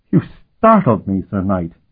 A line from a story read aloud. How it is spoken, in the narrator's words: he said, laughing nervously